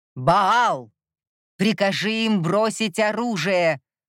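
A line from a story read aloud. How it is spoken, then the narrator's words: Shouted. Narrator (Russian): снова крикнул Микель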